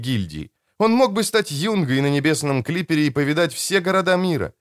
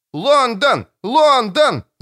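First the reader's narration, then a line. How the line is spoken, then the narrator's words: Shouting with crowd. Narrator (Russian): закричал Том, вплетая свой голос в общий хор зрителей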